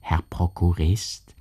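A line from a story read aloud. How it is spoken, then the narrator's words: Merchant's quiet voice. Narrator (German): sprach ihn der Kaufmann mit leiser Stimme an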